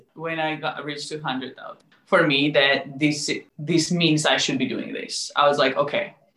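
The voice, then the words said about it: Non-native English accent. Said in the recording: “my voice and accent ... I was scared of my English”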